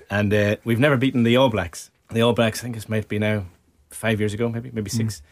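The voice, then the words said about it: Irish accent. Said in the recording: “big Irish rugby fan, in case you can't notice the accent.”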